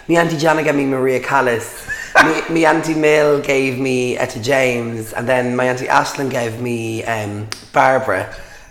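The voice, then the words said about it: Hoarse, laryngitis-affected voice. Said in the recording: “Excuse me. Hashtag laryngitis.”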